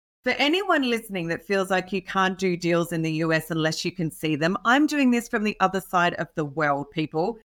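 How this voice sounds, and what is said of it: Australian accent. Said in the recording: “I am an Aussie, so hence the accent.”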